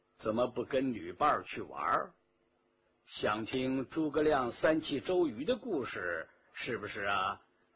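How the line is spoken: Flat, indifferent tone. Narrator (Chinese): 淡淡的说道

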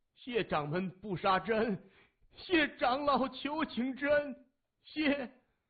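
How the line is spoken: Crying and shouting. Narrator (Chinese): 王建廷连哭带喊着说

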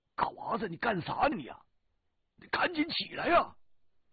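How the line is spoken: Shouting. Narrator (Chinese): 大个子对嘎娃喊

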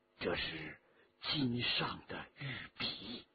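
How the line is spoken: Low voice. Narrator (Chinese): 沈德潜低声地说

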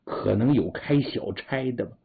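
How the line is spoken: Low voice. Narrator (Chinese): 低声说

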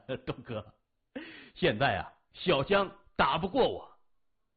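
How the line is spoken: Laughing, insinuating. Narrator (Chinese): 刘伯大笑，若有所指的说

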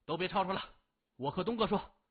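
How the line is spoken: Loud. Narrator (Chinese): 高强 大声说

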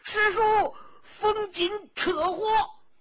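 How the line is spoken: Shocked frantic shout. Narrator (Chinese): 冯辉大惊啊，狂叫

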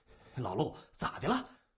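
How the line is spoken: Puzzled question. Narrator (Chinese): 周挺突然被陆寇拦阻，大为不解

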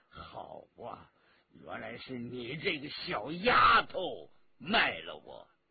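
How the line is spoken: Furious, muttering through teeth. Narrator (Chinese): 他气炸了心肺，咬牙切齿的暗骂

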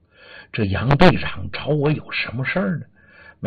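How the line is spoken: Muttering to himself. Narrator (Chinese): 心里就嘀咕

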